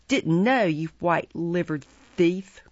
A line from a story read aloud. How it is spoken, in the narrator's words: growled Sykes